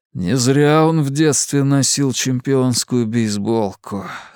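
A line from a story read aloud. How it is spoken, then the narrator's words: Hoarse man. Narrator (Russian): хрипло проговорил Луис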